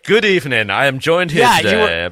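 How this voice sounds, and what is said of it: Posh BBC-style British delivery. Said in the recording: “you have this posh English accent ... it felt like the BBC with you ... It was very BBC. It was very BBC ... He hides it behind that British accent.”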